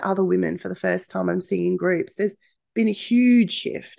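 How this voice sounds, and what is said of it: Slightly croaky voice. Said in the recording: “my voice is a little bit croaky. Yes, I'm a little bit sick. I've had a chest infection.”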